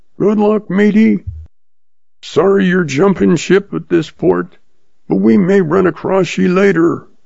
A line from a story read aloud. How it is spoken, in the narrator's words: Ed yells